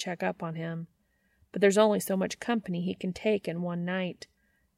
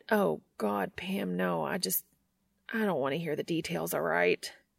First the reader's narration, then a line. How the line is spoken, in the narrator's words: mutters